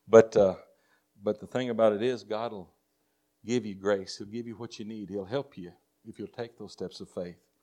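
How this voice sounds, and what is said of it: Texas accent. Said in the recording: “I still got my Texas accent.”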